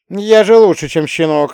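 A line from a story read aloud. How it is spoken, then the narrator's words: Reply with loud guffaw. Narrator (Russian): ответил Рязкин и громко заржал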